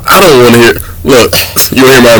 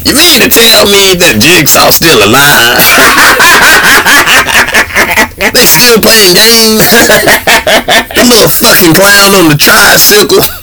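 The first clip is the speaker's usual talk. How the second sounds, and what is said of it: Imitates another person's voice. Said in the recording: “my impression of Chris Rock”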